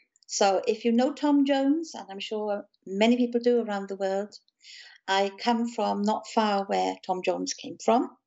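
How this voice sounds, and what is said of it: Welsh accent. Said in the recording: “your very, very cool accent ... My accent is from South Wales”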